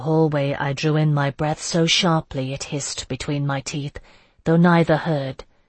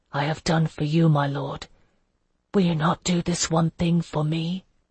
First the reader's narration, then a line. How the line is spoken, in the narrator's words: whisper